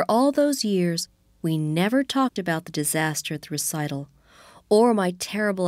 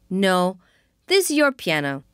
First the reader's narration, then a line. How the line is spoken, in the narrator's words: said firmly